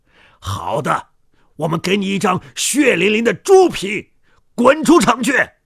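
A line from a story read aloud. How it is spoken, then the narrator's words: Shouting. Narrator (Chinese): 他们喊着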